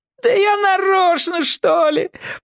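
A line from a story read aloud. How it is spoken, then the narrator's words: Whiny wail. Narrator (Russian): плаксиво взвыл кранец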